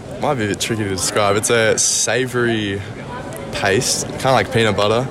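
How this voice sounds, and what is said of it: Australian accent. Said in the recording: “Always sounds cool whenever we hear someone with an Australian accent.”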